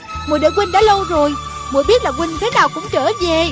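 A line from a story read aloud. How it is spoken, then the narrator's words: Joyful cry. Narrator (Vietnamese): rạng rỡ nét cười, reo lên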